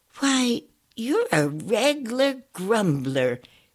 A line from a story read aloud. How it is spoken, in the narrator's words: exclaimed Twinkle